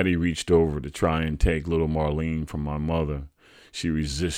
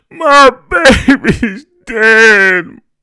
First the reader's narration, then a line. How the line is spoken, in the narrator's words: my mother moaned